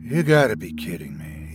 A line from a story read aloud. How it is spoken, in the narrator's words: he said quietly